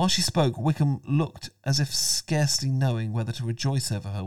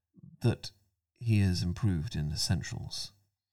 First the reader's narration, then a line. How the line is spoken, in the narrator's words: he continued in a lower, more serious tone